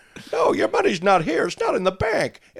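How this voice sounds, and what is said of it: Impression of James Stewart. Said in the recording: “do an impression of James Stewart in It's a Wonderful Life ... I don't know if that was all that good”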